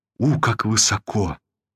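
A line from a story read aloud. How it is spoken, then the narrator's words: Weak, trembling voice. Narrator (Russian): произнесла она ослабевшим и вздрагивающим голосом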